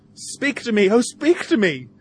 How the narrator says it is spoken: cries Tom's young lady

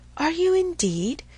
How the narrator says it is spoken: cried he

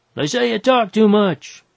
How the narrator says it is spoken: he yelled

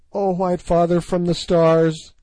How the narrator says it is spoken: she cried

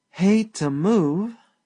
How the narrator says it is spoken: sighed Sally Carrol lazily

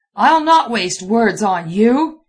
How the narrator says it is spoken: he roared

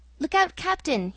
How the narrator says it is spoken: he cried

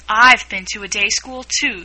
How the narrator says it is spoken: said Alice

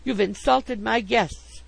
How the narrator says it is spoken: she cried

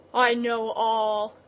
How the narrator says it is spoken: the bull groaned

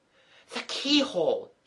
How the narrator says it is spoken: cried

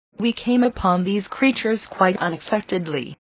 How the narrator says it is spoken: he replied

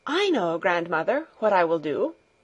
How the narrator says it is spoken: said eagerly

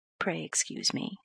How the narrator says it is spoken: answered the doctor quietly

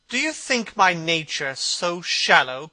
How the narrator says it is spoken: cried Dorian Gray angrily

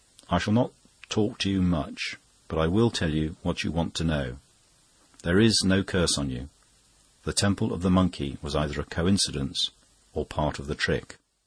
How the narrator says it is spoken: after a silence said quietly

